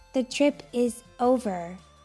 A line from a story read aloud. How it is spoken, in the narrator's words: she said slowly